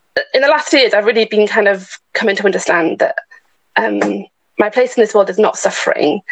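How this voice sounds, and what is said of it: Emotional, choked-up voice. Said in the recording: “I'm still a bit emotional.”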